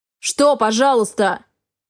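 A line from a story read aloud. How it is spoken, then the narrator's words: Barked. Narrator (Russian): Гаркнул он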